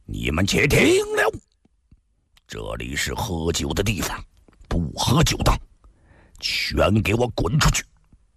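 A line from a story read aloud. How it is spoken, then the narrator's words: Loud, harsh shout. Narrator (Chinese): 悄然大喊，厉声喝道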